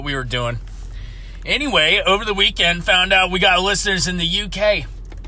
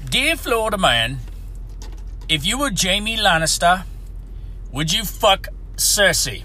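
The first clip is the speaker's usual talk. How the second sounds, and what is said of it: Poor put-on British accent. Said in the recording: “It's my shitty British accent.”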